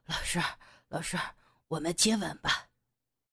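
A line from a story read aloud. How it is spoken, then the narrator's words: Heavy panting. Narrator (Chinese): 杨野气喘如牛的说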